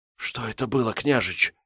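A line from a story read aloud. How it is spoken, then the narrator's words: Whispered question. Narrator (Russian): шепотом спросила меня Светлана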